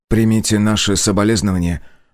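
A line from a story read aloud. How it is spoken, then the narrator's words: Strained, forced. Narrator (Russian): выдавил из себя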